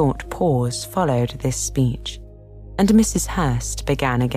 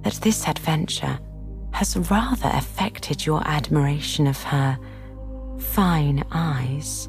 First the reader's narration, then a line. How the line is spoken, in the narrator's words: observed Miss Bingley in a half whisper